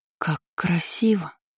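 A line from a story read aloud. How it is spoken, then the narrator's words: Breathless exhale. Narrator (Russian): Выдохнула Кейра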